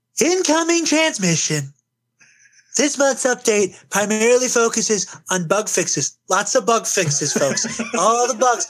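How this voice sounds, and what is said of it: Imitates another person's voice. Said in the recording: “a Trump impersonation, let the professional handle it”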